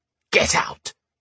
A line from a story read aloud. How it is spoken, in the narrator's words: he hissed